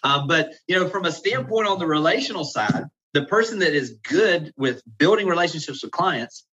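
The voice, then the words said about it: Southern American accent. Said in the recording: “this Southern accent I've got and energy”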